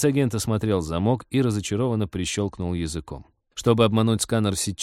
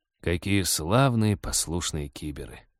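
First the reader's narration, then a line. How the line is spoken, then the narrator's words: Bitter mutter. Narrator (Russian): с горечью пробормотал Вадим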